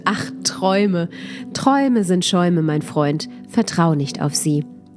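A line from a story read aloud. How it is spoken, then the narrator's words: Bright laugh, stranger speaking. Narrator (German): lachte der Fremde hell auf und meinte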